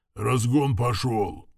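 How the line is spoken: Muffled growl. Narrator (Russian): глухо рыкнул главный механик

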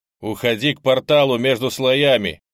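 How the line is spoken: Shouted. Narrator (Russian): крикнул я Йонке

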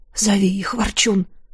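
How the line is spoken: Whispered. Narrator (Russian): прошептал

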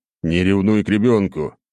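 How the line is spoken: Laughing. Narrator (Russian): хохотнул я

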